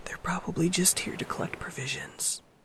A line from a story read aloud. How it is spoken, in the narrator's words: Izuku says in a whisper